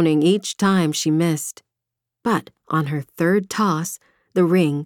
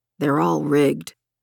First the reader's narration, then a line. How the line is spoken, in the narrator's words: Marcus grumbled